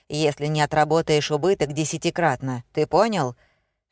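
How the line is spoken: Bearded man growling. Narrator (Russian): прорычал бородач

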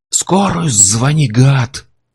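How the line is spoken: Growl. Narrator (Russian): зарычал Курт

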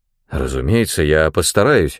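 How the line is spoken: Plain. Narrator (Russian): ответил

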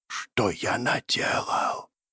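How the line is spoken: Whisper. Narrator (Russian): Прошептал Клар

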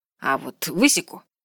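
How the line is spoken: Irritated, curt. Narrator (Russian): раздраженно бросил Вальцер

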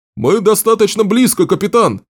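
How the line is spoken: Shout. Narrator (Russian): крикнул дозорный

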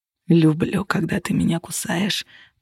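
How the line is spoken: Growl. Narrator (Russian): прорычал Костя

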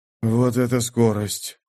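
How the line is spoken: Muttered. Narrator (Russian): пробормотал Минош

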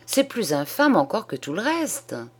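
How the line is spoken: Indignant old man's exclamation. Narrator (French): s'écria le bonhomme indigné

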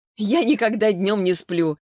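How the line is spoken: Laughing. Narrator (Russian): засмеялась Саша

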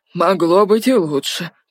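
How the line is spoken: Grumble. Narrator (Russian): проворчал тот

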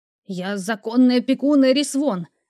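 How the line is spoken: Hissing. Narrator (Russian): зашипел дядя

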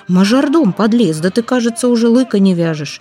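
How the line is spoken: Exclamation. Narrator (Russian): Самоплясов воскликнул

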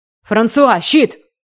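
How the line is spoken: Quick shout. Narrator (Russian): успел крикнуть Ноа

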